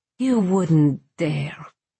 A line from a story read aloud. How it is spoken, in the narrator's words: she snarled